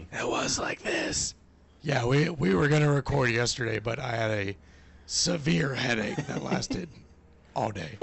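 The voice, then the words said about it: Weak, hoarse voice. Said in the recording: “As you can tell, my voice is still not back, but it is at least you can hear me.”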